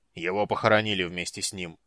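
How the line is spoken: Gruff. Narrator (Russian): грубо сказал Флинт

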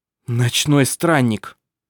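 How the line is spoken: Sob. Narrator (Russian): Сёльве всхлипнул

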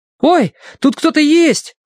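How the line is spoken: Exclamation. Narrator (Russian): воскликнул Колин

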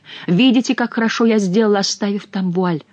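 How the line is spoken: Plain. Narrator (Russian): сказал граф

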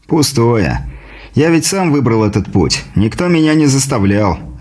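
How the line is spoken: Sigh. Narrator (Russian): вздохнул тот

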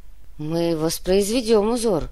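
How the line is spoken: Muttered, slightly surprised. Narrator (Russian): чуть удивленно пробормотала Фата

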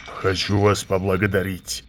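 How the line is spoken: Loud snort. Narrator (Russian): шумно фыркнул он

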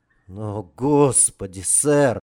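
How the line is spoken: Breathless exclamation. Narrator (Russian): Выдохнул капрал

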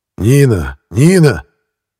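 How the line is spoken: Shouted. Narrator (Russian): крикнул Архипов

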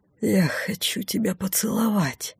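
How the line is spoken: Breathy. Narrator (Russian): выдохнул он

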